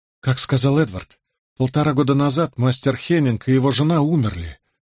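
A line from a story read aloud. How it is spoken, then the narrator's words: Sighing. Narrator (Russian): вздохнула Джозефина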